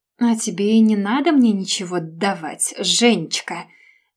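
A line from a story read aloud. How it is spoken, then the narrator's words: Snide, through gritted teeth. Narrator (Russian): Ехидно процедила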